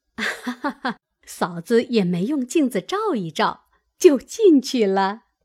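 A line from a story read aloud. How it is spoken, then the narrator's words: Group laughing. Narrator (Chinese): 几个等空盒家伙的婆子都笑道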